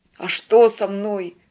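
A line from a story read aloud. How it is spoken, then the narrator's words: Weak wheeze. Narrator (Russian): слабо прохрипел он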